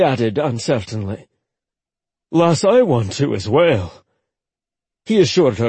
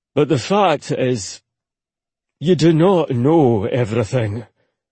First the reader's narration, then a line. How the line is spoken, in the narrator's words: he said solemnly